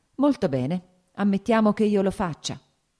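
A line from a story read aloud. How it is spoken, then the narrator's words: Plain, woman. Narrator (Italian): ella disse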